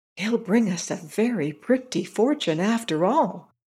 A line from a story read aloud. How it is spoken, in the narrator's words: whispered one to his comrade